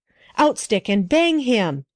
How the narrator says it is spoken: he cried

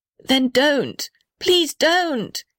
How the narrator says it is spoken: yelled the little red house

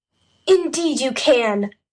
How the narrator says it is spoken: cried Jess and Henry together

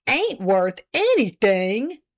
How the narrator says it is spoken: exclaimed Mr

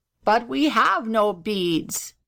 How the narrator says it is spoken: said the gobbler sadly

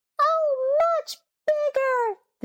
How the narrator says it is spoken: they cried

